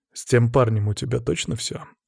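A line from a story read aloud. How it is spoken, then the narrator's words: Calm question. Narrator (Russian): спросил я спокойно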